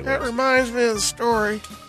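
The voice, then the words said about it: Imitates another person's voice. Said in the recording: “Is that your Lincoln? ... I thought you were having a stroke. ... That was ... doing impression. ... That was ... Lincoln.”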